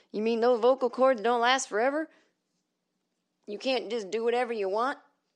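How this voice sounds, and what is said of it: Put-on Southern accent, dim character. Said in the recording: “I gave that person a southern accent ... a voice that's supposed to indicate this is a fucking idiot”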